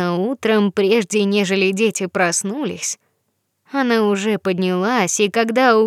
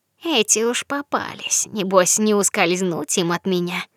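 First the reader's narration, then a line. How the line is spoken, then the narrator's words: Malicious mocking laugh. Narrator (Russian): она уже злобно посмеивалась и говорила насмешливо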